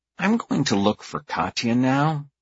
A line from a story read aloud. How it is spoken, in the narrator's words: I sigh count to five to keep my temper under control, and say through gritted teeth